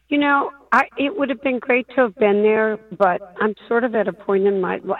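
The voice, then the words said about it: Hoarse, strained voice. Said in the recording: “Did you lose your voice yelling somewhere? ... I am losing my voice.”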